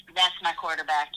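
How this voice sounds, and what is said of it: Imitates another person's voice. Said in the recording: “in my Terrell Owens voice ... in your best T.O. voice”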